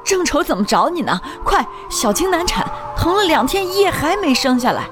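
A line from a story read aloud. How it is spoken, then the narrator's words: Urgent shouting. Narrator (Chinese): 陈林……冲我喊着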